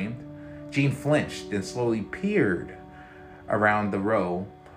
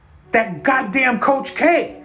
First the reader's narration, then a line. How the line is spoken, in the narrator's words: Brutus yelled